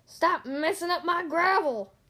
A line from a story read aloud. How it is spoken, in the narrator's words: he yelled